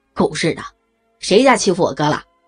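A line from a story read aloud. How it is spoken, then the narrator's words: Cursing shout from outside. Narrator (Chinese): 门外传来了一阵叫骂声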